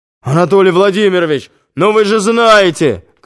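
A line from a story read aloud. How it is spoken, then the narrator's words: Shouting from the corridor. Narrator (Russian): кричал он уже из коридора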